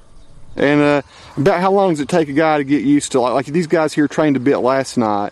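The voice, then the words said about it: Southern accent. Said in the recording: “Did you hear his southern accent? ... Southern, it's awesome.”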